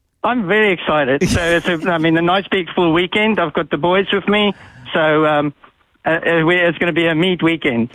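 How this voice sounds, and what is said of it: South African accent. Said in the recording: “What's the accent that we can detect there? ... That is 11 generations of South African.”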